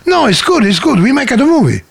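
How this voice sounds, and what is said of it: Comedy Italian accent. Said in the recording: “I don't mean to do him in a comedy Italian accent.”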